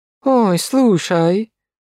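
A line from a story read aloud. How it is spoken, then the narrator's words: Tired drawl. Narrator (Russian): устало протянула Полина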